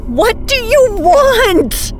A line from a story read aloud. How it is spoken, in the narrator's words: I screamed, this time my voice nearing hysteria